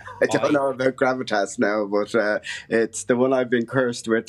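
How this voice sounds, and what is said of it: Dublin Irish accent. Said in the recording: “that wonderful accent you have. It brings an air of gravitas to the show... the Dublin accent”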